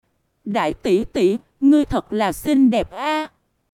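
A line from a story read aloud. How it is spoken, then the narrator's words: Smiling. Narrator (Vietnamese): Mỉm cười, nói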